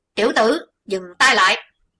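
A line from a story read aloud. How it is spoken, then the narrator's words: Fearful urgent shout. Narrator (Vietnamese): Sợ Chí Tôn quật tiếp một chưởng khác giết chết huyết hồn kiếm quỷ, thiếu giáo chủ âm ma quát giang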